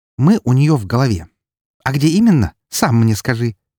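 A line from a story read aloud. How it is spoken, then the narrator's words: Angrily spat out. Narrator (Russian): Зло выплюнула она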